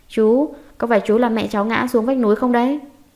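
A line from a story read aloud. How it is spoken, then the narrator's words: Angry child, gritted teeth. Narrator (Vietnamese): nghiến hàm răng có báo nhỏ tức giận nói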